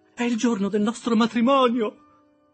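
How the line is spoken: Jubilant shout. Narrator (Italian): gridò Biddy esultante

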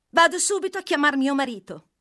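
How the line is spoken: Young German woman exclaiming. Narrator (Italian): esclamò la tedeschina

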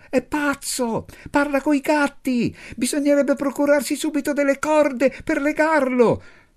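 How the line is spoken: Shouted. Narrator (Italian): Anna gridò

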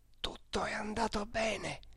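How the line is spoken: Low voice. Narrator (Italian): disse a bassa voce il Michelozzi

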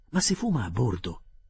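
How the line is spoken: Exclamation. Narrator (Italian): esclamai

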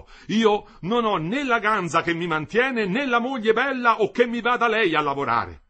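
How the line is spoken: Anxious, bitter shout. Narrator (Italian): terrio in viso, al solito, tutto ansia ora e tutto bile, gridò

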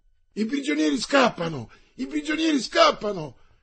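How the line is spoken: Sergeant shouting alarm. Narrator (Italian): gridò il sergente

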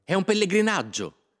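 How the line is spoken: Excited shout. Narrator (Italian): gridava Marietta tutta eccitata

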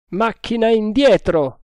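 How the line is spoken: Shouted. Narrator (Italian): gridò

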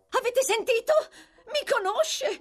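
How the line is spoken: Girl shouting. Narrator (Italian): urlò la ragazza

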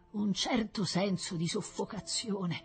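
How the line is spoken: Stammered by professor. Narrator (Italian): balbettò il professor Rossi

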